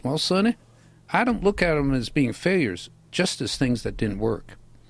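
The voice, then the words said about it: Southern-accented Thomas Edison impression. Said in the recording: “A great Thomas Edison impression ... He's a Southern. ... When did he become from Alabama?”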